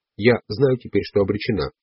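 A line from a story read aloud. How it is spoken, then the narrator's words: Plain. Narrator (Russian): сказала она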